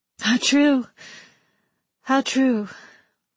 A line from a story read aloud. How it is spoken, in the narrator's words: her sister breathed